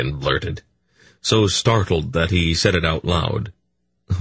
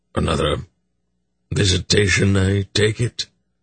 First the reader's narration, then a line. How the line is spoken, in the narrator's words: He said in a slightly sick tone of voice